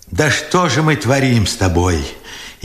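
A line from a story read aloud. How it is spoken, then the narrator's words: Furious tearful question. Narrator (Russian): яростно сквозь слезы спрашивал Бережной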